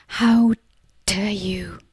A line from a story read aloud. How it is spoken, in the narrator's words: whispered